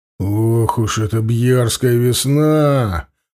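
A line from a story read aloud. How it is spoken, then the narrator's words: Groaning. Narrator (Russian): простонал Анил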